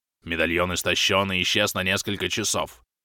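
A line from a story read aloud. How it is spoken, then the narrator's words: Growling, transforming werewolf. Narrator (Russian): рычащим голосом пояснил Грим, продолжая трансформацию в чудовищного оборотня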